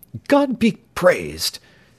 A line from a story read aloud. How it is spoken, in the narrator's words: cried James Playfair